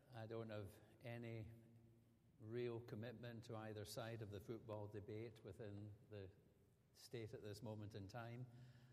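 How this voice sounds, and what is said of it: Scottish accent, not Southern American. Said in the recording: “you probably recognize that my accent is not Lower Alabama ... living in Scotland”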